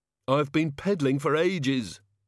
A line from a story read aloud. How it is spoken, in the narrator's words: panted the Ogod